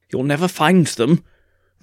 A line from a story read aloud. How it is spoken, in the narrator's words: the vicar cried